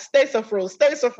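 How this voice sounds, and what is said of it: Imitates a Ghanaian accent. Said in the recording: “my parents are from Ghana, so my dad has the accent.”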